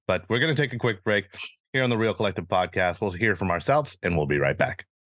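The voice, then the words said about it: Voice fading, losing voice. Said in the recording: “lose my voice very slowly. And that's why I'm not really talking today”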